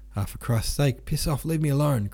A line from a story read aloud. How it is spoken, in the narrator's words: cried the wounded man